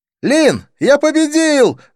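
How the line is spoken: Excited yell. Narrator (Russian): завопил подбежавший Навин

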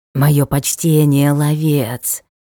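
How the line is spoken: Hedgehog's hiss. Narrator (Russian): прошипел ёж

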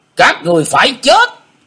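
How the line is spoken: Sudden thunderous shout. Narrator (Vietnamese): Hải ma giáo chủ bỗng quát như sấm nổ

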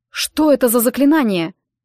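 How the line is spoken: Shout. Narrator (Russian): прокричал

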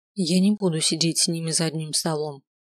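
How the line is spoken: Quiet but firm. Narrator (Russian): произнесла тихо, но достаточно твердо

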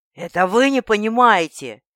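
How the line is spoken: Growling. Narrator (Russian): Олан на рычание перешел

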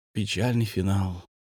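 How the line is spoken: Sighing. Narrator (Russian): вздохнул Павел

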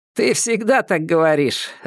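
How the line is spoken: Laughing. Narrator (Russian): рассмеялся Антон

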